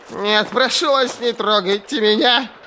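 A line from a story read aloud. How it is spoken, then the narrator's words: Shrill whimper. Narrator (Russian): Визгливо проскулил знакомый голос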